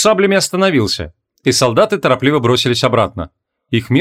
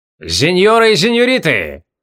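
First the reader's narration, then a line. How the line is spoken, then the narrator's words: Trained voice shout. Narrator (Russian): хорошо поставленным голосом выкрикнул Риймако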